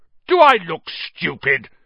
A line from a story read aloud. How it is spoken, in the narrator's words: snarled Uncle Vernon